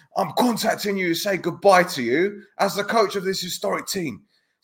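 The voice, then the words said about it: Cockney accent like Vinnie Jones. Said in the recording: “I sound like fucking Vinnie Jones now, don't I?... like a proper Cockney accent as well”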